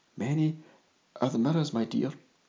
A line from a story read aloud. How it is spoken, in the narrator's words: without thinking whispered